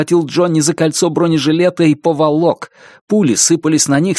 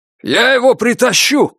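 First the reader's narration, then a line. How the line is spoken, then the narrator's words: Shouted. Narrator (Russian): крикнул Фут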